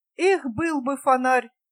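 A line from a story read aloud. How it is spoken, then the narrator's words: Groaned. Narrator (Russian): простонал Томас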